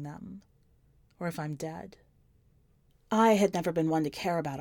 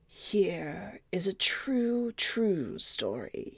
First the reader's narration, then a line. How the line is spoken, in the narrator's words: he begins in his sawdust voice